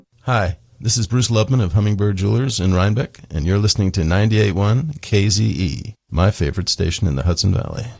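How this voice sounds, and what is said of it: Polished radio announcer voice. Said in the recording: “Now, that's a radio voice.”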